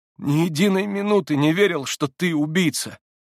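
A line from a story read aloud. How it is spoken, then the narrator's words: Trembling voice. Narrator (Russian): вырвалось дрожащим голосом из груди Алеши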